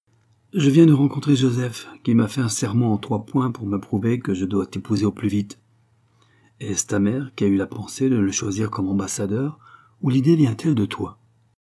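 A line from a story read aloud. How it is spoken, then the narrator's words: Brusque tone. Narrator (French): il dit, d'un ton brusque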